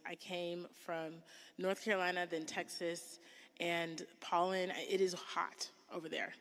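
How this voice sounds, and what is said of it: Congested, sniffly voice. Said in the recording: “Please excuse my voice. ... My pollen allergy stuff is acting up a little bit. So if you guys hear me sniffling”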